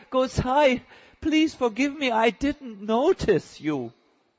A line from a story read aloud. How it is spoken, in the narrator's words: she cried